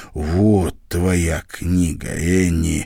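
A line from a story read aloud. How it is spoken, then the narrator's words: Breathless exhale. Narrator (Russian): выдохнул он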